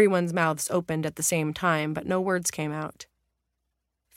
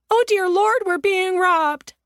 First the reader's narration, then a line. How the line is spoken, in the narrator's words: Anna Lena also caught sight of the figure in the ski mask and cried out